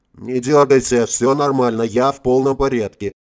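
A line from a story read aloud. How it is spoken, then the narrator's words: Quiet, overly calm voice. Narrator (Russian): тихим и чересчур спокойным голосом произнесла Иришка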